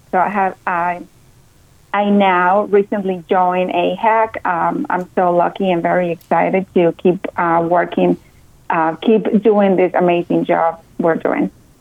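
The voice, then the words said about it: Slight Colombian Spanish accent. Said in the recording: “I'm originally from Colombia, South America. You can tell I have a little bit of my accent.”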